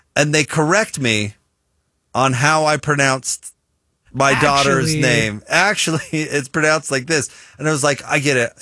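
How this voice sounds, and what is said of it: American accent, Utah. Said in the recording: “I have my American accent ... my Utah/American accent”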